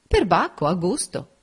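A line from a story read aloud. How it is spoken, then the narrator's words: Exclamation. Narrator (Italian): esclamò Enrico Lynn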